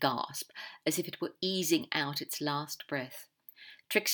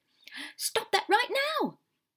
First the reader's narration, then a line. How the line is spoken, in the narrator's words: The Omega shout bounced around the room